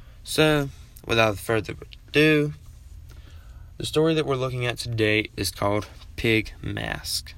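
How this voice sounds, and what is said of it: English accent. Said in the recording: “my old country English accent”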